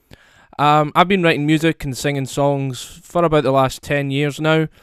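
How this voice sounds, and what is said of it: Scottish accent. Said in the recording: “I'm a singer-songwriter from Scotland, as you can probably hear from my accent”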